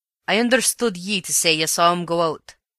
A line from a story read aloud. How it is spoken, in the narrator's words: said he sternly